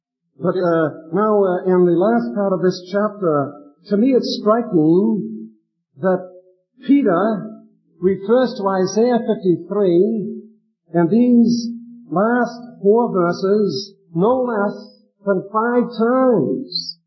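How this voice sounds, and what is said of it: Boston accent. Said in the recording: “I have a Bostonian accent”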